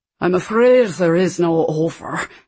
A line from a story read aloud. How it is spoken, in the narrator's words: the driver said, in a thick Highland accent, his R's rolling magnificently